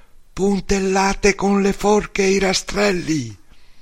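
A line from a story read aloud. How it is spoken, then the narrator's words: Shouted. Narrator (Italian): Bepi e Angelo gridarono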